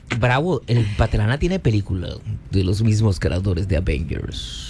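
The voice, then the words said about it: Deep movie-trailer dubbing voice. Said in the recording (Spanish): “Te salió voz de hombre y todo ... de eso que hacen doblaje en México”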